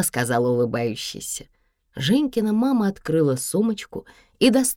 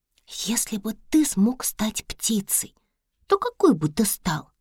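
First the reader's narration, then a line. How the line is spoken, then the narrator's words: Soft whispered question in ear. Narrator (Russian): тихонько спросила Женька прямо на ухо, и ее шепот был громче всех прочих звуков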